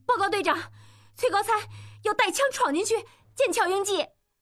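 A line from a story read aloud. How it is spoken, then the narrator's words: Loud. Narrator (Chinese): 巧姑大声说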